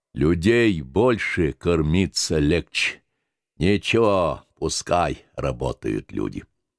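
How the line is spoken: Hoarse bass, consoling. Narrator (Russian): Огромный, налитый жиром, раздутый во все стороны мельник и трактирщик Лука Барский хриплым басом утешал

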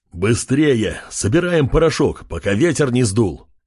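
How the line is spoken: Shouting urgently. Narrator (Russian): кричал Чев

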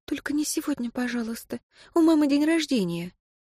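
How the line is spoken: Tearful whisper. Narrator (Russian): чуть не плакала и при этом шептала в затылок Антона

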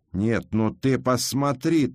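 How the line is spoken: Woman shouting. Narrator (Russian): крикнула жена корчмаря

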